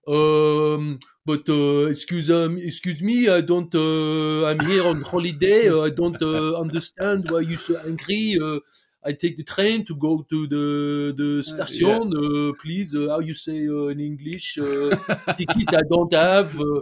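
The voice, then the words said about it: Put-on French accent in English. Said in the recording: “the best thing is the French accent in English ... That's perfect.”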